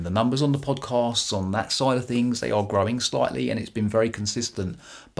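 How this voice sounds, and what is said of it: British accent. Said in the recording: “my beautiful British accent”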